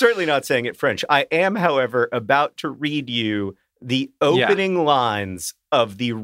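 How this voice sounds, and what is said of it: Usual voice. Nothing is said of it.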